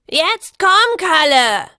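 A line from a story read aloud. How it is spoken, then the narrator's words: Woman shouting after running. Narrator (German): schrie die Meisterin, als sie von ihrem Lauf zurückkam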